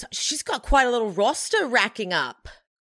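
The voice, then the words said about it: Put-on Australian accent. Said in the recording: “I really can't do an Australian accent usually. I got lucky there. ... That was really good. ... I nailed it.”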